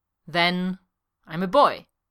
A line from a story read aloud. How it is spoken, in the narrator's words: Eska says coldly